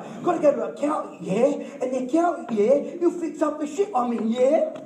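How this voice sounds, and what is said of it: Put-on British accent, Jamie Oliver. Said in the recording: “I've got my Aussie accent. Let me do a British accent. ... I sound like Jamie Oliver, don't I?”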